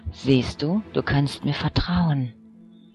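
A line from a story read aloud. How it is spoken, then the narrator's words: Whispered. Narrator (German): flüsterte er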